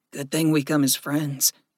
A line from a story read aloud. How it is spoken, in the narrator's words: Gregory murmured